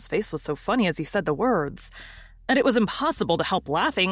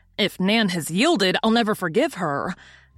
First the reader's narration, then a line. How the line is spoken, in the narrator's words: exclaiming in dismay